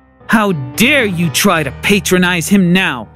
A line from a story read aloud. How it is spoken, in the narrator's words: she growled